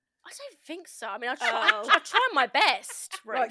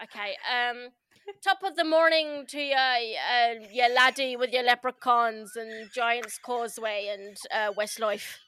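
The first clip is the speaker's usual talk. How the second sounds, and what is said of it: Poor put-on Irish accent. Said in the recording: “your Irish accent ... give us your Irish ... Those accents are”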